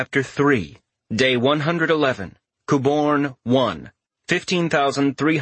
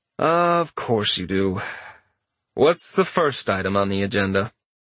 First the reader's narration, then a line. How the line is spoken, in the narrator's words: Richter gave a long-suffering sigh, softened by a faint smile at the end, and said